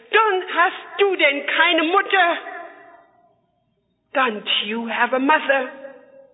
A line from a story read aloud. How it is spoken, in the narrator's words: she was so horrified, she screamed at that officer